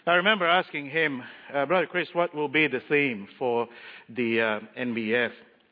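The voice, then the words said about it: Strong accent, hard-to-follow English. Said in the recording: “Half of the time I have troubles with my words and my syllables. ... if you can't understand my accent”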